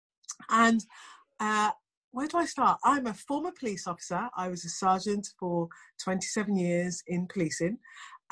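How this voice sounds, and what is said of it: English accent. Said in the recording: “as you can probably tell from the accent, I am from England.”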